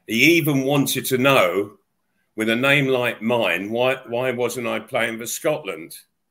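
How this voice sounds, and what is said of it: Cockney accent. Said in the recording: “with your Cockney accent”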